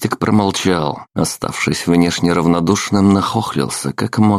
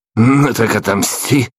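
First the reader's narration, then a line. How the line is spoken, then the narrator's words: Snorted. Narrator (Russian): фыркнул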